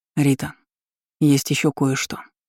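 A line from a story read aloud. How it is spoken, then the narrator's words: Serious tone. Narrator (Russian): серьезным тоном произнес он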